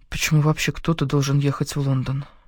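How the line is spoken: Mutter. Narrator (Russian): пробормотала я

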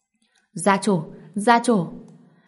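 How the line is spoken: Excited crowd shouting. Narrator (Vietnamese): Đệ tử nhà họ Lý xôn xao hét, tinh thần ai cũng hưng phấn hẳn lên

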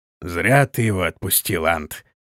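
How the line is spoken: Grumbling. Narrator (Russian): проворчал Торвелл

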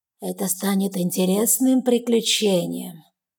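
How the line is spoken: Low, hissing, grating voice. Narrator (Russian): Его низкий голос с характерным шипением действует на нервы

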